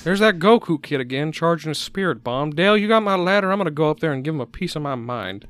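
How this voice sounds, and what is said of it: Hank Hill impression. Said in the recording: “Hank Hill ... Mike Judge does his voice”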